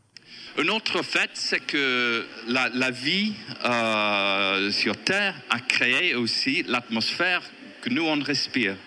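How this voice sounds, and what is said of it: Strong English accent in French. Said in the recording (French): “un Anglais, écoutez bien, il a un accent certain, mais on le comprend”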